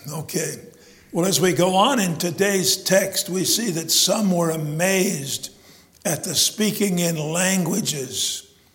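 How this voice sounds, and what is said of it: Strained voice, not its normal tone. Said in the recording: “apologize for my voice. ... It wasn't like this until I got done singing ... it's kind of awkward for me, and I'm sure it's not as pleasant for you as my normal melodious tones”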